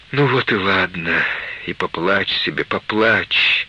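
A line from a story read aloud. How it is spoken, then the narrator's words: Soothing, repetitive. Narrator (Russian): приговаривала Мария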